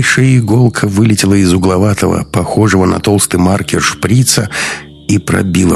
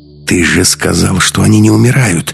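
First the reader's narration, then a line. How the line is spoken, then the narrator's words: Hissing. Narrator (Russian): зашипела Маруся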